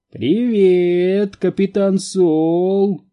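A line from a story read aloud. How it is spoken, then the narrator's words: Sing-song greeting. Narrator (Russian): нараспев произнес Хендер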